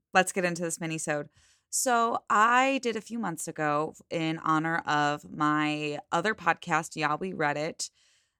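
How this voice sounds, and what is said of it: Hoarse voice from a cold. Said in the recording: “losing my voice a little bit... new cold or cough every other week... I've been sounding like this on and off”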